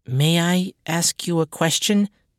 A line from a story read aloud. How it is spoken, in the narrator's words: Catalusa said, biting her lip nervously